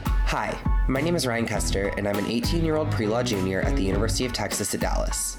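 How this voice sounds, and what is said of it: Slightly scratchy voice. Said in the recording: “my voice is a little scratchy. I think that finals are finally getting the best of me.”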